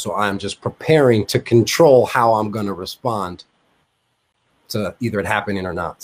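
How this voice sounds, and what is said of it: Thick New York accent. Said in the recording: “Obviously people can tell you're from New York. Your accent's a little bit thicker than mine”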